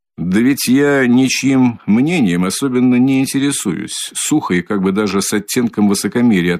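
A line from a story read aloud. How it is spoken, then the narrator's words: Plain. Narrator (Russian): ответил Свидригайлов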